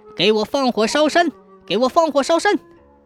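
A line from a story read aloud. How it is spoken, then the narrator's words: Furious trembling shouting. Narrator (Chinese): 知府气得浑身颤抖，大喊大叫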